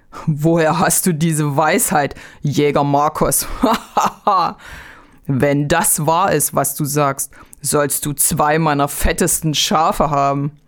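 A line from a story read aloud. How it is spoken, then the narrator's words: Farmer laughing, speaking. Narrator (German): Da lachte der Bauer und sprach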